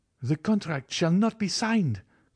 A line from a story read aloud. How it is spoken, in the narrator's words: cried Morel